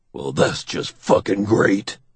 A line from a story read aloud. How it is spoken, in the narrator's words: Doug mutters